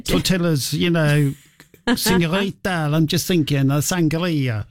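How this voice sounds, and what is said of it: Failed Spanish accent, sounds Italian. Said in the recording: “That sounded more like Italian. I'm not going to try and do Spanish. I was trying to do Spanish, but it's not working today.”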